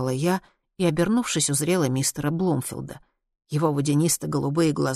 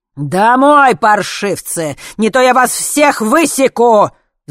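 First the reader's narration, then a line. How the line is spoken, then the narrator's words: Father's furious roar. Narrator (Russian): взревел папенька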